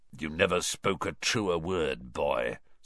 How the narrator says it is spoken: someone muttered dryly

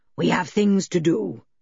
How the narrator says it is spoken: he said in his deep voice, which sounded rather hoarse now

